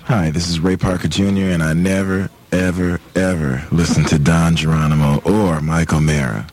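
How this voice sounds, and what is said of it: Slightly hoarse voice. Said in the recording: “He sounded a little hoarse there.”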